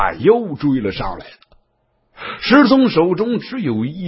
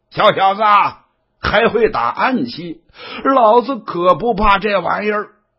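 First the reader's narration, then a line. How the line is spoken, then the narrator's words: Loud laughter. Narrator (Chinese): 刘黑大笑啊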